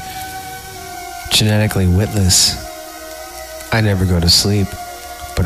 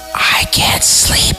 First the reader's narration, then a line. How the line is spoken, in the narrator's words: she whispered